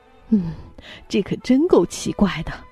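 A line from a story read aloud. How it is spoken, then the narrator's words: Panting question. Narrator (Chinese): 国王大口喘着气问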